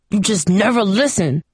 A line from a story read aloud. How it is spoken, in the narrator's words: he growled